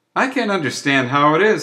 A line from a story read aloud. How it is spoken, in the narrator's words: said one